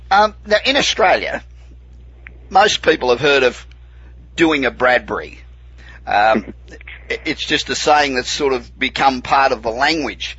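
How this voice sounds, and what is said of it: Australian accent. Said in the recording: “good to hear an Aussie accent ... all American accents, apart from this one ... your accent never, ever goes away”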